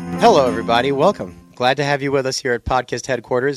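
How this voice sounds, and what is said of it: Strained, under-the-weather voice. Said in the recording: “You'll forgive my voice, a little bit of the Christmas season getting to me”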